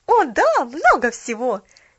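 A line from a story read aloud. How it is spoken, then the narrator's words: Happy exclamation. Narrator (Russian): счастливо воскликнула Поллианна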